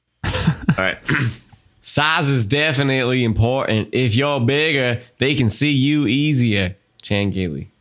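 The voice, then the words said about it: Attempted Southern accent, Forrest Gump-like. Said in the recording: “We have to read it in a Southern accent ... Oh, that wasn't Southern. That was Forrest Gump, dude. ... Forrest Gump is Southern, bro. ... I can't do accents, and they all turn into Forrest Gump.”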